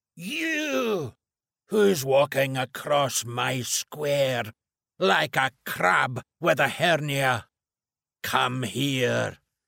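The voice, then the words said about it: Booming thick Glaswegian accent. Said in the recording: “a huge voice booming at me ... its thick Glaswegian accent”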